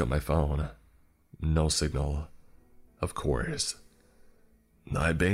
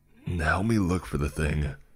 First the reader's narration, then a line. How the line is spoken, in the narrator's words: I growled